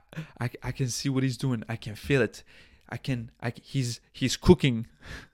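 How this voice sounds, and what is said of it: Imitated voice with French accent. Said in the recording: “With that French accent ... All right, Ratatouille, chill out.”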